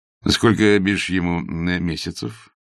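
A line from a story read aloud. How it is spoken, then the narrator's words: Plain question. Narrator (Russian): спросил Павел Петрович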